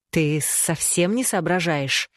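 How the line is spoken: Hiss. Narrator (Russian): прошипел он в ответ

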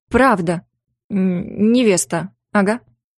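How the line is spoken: Strained, throat cleared. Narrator (Russian): Прочистив горло, выдавила из себя

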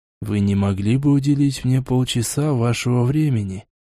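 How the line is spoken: Calm question. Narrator (Russian): спокойно спросил Хосе

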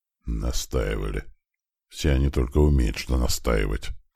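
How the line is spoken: Tired. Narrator (Russian): как-то устало произнес хозяин кабинета

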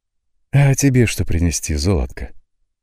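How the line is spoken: Gentle, affectionate question. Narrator (Russian): ласково спросила матушка Розанна

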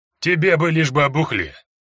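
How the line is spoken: Chuckling reply. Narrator (Russian): хохотнул Эрни в ответ

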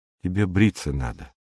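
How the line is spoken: Whisper. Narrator (Russian): шепнула она

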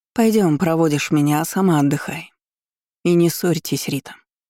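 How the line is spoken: Quiet, private. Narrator (Russian): тихо сказала она, чтобы услышала только я

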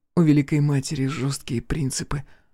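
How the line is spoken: Young woman sighing. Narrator (Russian): вздохнула девушка

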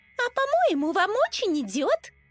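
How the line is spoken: Cheerful interjection. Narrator (Russian): Радостно встряла Лиза

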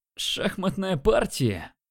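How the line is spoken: Mocking. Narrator (Russian): насмешливо сказал он

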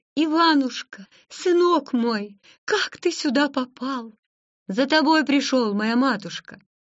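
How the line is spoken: Cry out. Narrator (Russian): вскрикнула

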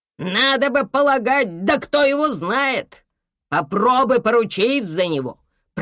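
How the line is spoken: Grumbling. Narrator (Russian): проворчал кондуктор

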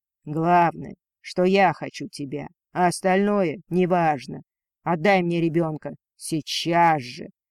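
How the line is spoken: Dragon's fierce growl. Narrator (Russian): свирепо зарычал дракон

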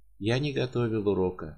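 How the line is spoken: Calm quiet repetition. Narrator (Russian): еще раз спокойно и негромко произнес Радин

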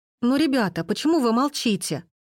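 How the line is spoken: Pleading girl. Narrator (Russian): Взмолилась девушка

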